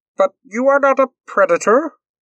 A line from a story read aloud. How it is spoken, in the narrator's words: Moore exclaimed, not sounding very sure of themselves